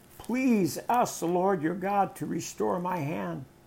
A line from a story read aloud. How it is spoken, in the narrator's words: The king cried out to the man of God